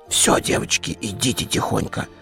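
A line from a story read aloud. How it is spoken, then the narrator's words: Whisper. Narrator (Russian): прошептала Вера Федоровна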